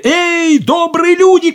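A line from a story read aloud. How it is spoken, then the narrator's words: Shouting. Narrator (Russian): крикнул он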